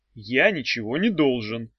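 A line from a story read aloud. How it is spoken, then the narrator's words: Glum arguing. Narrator (Russian): уныло заспорил Эдя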